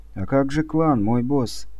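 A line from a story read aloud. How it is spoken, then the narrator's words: Quiet, faintly contemptuous. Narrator (Russian): тихо, но с едва уловимым оттенком презрения проговорила наконец она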